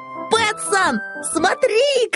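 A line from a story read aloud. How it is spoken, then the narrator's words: Shout. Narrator (Russian): крикнул Финдус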